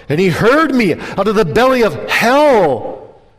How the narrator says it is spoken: cried I

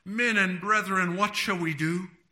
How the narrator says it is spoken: about 3,000 souls were pricked in their hearts and cried out

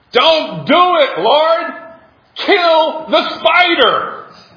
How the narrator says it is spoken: a young man who had heard this long enough shouted

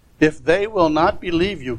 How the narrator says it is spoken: God said

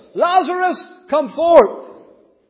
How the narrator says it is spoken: He cried with a loud voice

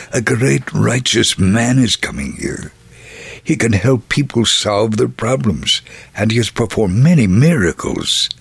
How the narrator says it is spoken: someone cautiously whispered

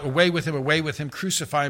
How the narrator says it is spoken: They cried out

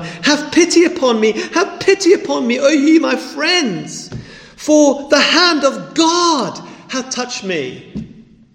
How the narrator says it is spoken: Job cries out to his friends

